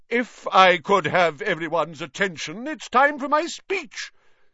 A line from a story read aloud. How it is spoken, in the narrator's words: said Nearly Headless Nick loudly